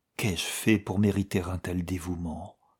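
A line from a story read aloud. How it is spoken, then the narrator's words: Surprised murmur. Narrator (French): murmura Diana d'un air surpris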